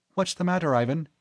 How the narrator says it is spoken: Sachiko asked anxiously

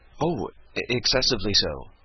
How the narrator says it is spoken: said Sarah hastily

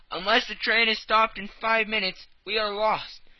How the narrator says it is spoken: he cried

